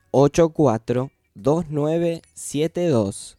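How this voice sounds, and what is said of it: Radio announcer voice. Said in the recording (Spanish): “¿Tengo voz de locutor o más o menos? ... Sí, me encantó.”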